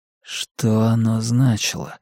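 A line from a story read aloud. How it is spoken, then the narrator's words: Barely audible whisper. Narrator (Russian): выдохнул почти неслышным шепотом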